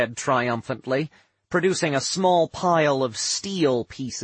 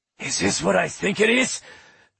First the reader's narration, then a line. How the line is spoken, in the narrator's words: Rorgus wheezed, near unconscious